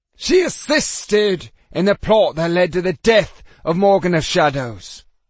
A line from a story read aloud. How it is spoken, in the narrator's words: Randall growled